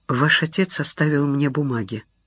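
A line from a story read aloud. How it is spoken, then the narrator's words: Even, level voice. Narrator (Russian): сказала Инна ровным голосом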